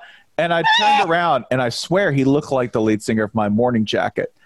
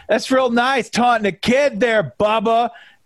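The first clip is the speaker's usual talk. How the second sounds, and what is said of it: Exaggerated thick Michigan accent. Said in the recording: “in this real thick Michigan accent that I'm going to butcher”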